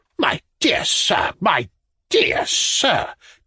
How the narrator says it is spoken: cried Ivan Andreyitch, turning cold with terror

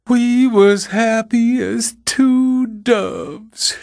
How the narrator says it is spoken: she wailed, choking

